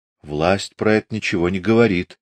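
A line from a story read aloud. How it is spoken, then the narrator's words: Quiet. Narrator (Russian): тихо сказал Дуняшка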